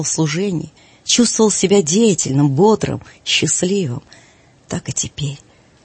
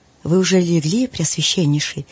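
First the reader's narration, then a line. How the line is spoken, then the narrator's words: Plain. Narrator (Russian): спросил он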